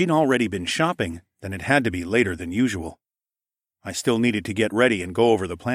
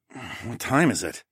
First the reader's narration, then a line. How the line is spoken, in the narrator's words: I grumbled